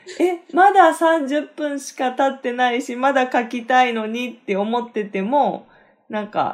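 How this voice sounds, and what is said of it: Usual voice. Nothing is said of it.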